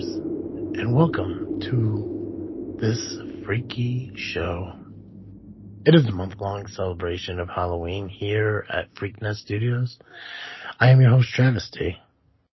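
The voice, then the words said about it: Soft, creepy crypt-keeper voice. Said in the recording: “I can't do the soft, weird voice. It's too creepy. ... It sounds like I'm trying to woo somebody ... It's very crypt-keeper-y.”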